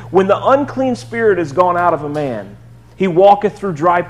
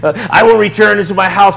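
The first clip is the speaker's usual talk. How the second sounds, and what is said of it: Put-on demon voice. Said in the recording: “How do you like that voice? That's kind of like a demon voice, I think.”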